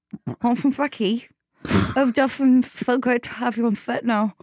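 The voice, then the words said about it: Put-on Australian accent. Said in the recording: “Have you ever done an Australian accent ... The only way I can do it is like this.”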